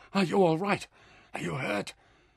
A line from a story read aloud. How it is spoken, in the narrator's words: now he demanded breathlessly